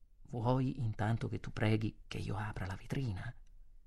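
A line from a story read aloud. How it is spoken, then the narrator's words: Whisper. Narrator (Italian): Sussurrai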